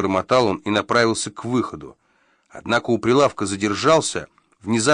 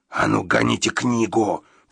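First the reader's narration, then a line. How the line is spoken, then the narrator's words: Hissing. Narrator (Russian): прошипел Гадсон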